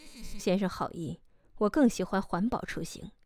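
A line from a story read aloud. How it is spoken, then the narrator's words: Cold, aloof laugh. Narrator (Chinese): 傅寒生高冷地喝笑了一声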